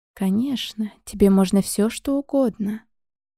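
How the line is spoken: Gentle reply. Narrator (Russian): ласково ответила та

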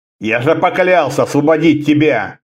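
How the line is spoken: Almost rough. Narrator (Russian): сказал почти грубо

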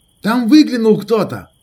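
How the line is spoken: Shooter shouting. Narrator (Russian): крикнул шутер

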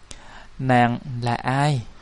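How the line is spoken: Hoarse old voice, forced gentleness. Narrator (Vietnamese): Tuy giọng khàn khàn do rượu chè quá độ, nhưng lão vẫn cố điều chỉnh để nghe cho thật nhẹ nhàng

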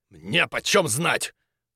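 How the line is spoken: Sharp reply. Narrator (Russian): резко ответил Крюгер

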